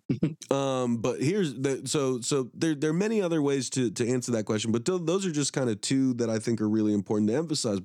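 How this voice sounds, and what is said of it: Hoarse, fading sick voice. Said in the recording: “now I'm sick and I'm losing my voice. ... Oh yeah, I can hear it.”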